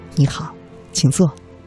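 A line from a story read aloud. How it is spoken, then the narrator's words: Soft, gentle. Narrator (Chinese): 总经理轻声的对他说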